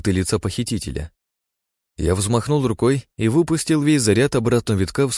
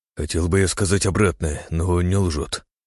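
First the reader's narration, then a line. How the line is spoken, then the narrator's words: Sigh. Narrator (Russian): вздохнул Синицын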